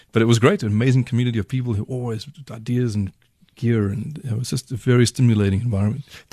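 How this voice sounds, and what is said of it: South African accent. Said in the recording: “Did they love your accent? ... are you Scottish? Are you Russian or something? No, South African.”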